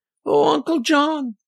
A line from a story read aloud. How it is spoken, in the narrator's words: squeaked out